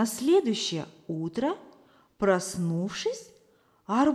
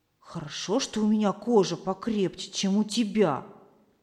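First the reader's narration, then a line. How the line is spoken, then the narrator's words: Plain. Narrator (Russian): ответил арбуз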